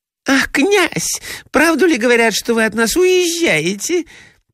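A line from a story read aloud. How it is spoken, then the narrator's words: Squeaky voice. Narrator (Russian): пропищала Фелисата Михайловна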